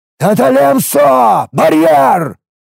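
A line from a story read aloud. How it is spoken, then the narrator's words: Roared. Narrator (Russian): взревел я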